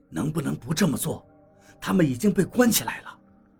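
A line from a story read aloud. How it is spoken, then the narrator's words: Low voice. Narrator (Chinese): 我低声对他说道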